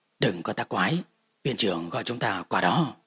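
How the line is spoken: Blushing, smiling. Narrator (Vietnamese): Lạc Ly đỏ mặt mỉm cười, hắn giọng nói

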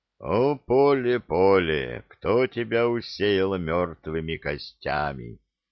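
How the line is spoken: Asked gloomily. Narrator (Russian): мрачно вопросил Илья

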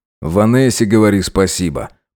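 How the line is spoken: Grumble. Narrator (Russian): проворчал старший лейтенант

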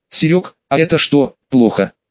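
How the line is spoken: Plain. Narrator (Russian): спросил уже я

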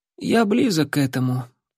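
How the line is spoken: Tired young man's reply. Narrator (Russian): устало ответил юнец

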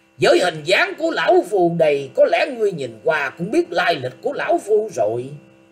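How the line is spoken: Furious loud shout. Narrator (Vietnamese): Quái nhân ấy trong lòng hết sức tức giận, quát to lên rằng

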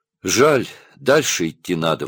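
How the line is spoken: Mother sighing. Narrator (Russian): вздохнула мать

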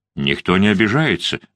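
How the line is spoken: Calm remark. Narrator (Russian): спокойно заметил Пьетро

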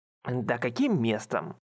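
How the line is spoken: Sharp. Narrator (Russian): Тут же резко высказался Ранта

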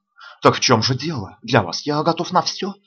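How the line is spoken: Soft reply. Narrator (Russian): мягко отзывается Ральф

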